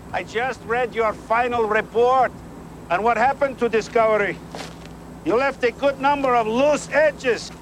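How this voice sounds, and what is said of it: Terrible fake accent. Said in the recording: “that's an American dude with a terrible accent ... That is not his voice.”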